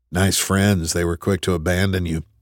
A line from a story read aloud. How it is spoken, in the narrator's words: Tripp muttered